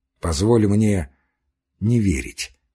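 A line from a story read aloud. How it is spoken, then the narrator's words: Soft objection. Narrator (Russian): мягко возразил Степан Аркадьич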